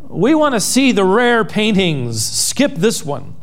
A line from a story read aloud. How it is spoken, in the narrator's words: a voice in the back of the room called out